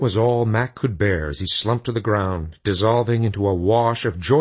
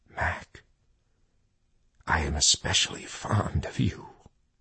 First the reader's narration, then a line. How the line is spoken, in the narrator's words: he heard Jesus whisper in his ear